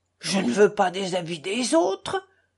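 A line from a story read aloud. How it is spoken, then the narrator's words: Exasperated exclamation. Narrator (French): s'écria Mitya exaspéré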